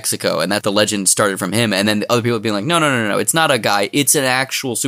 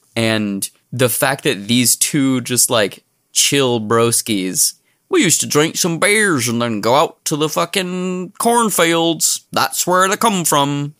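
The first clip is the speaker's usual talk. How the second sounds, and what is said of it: Wandering unplaceable accent, Samwise Gamgee. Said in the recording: “Really don't know what that accent is. There was not a single word in what you said where I could place the accent. ... It started out as Samwise Gamgee and then I don't know where it went.”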